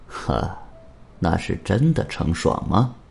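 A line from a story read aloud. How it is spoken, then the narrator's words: Cold laugh. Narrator (Chinese): 王田冷冷一笑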